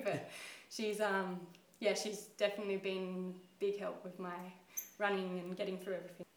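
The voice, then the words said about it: Teary, emotional voice. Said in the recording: “I'm getting teary”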